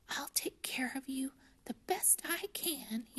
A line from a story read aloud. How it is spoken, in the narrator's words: he whispered